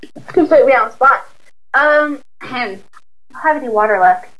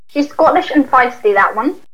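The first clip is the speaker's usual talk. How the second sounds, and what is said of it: Attempted thick Scottish accent. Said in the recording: “I can't do that accent either ... That was a really good try ... The accent is so thick”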